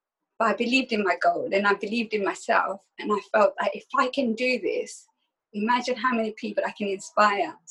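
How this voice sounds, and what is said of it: Emotional voice. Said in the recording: “I'm getting emotional.”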